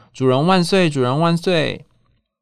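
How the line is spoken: Loud chanting crowd. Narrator (Chinese): 猫们……大声喊

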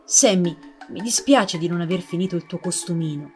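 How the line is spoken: Old man's dejected apology. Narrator (Italian): si scusò il nonno in tono avvilito

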